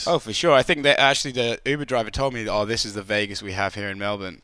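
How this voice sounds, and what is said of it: Speaks with a noticeable accent. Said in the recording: “If you can tell by the accent, not born and raised there.”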